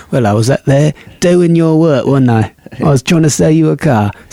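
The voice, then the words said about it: Put-on Cockney British accent. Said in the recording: “Or he's a Cockney British accent.”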